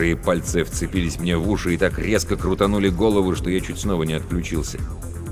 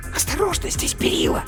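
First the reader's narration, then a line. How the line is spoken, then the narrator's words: Hissing. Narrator (Russian): прошипела матрешка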